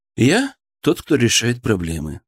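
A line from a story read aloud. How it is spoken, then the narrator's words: Calm reply. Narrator (Russian): спокойно ответил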